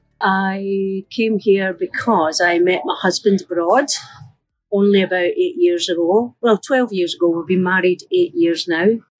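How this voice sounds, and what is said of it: Scottish accent, not Mancunian. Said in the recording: “The accent hasn't changed, has it? You're not succumbing to a Mancunian accent.”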